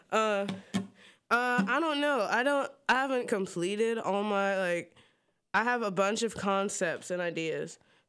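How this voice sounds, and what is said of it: Southern US accent. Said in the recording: “my southern accent. By my southern accent, I'm here from the down south.”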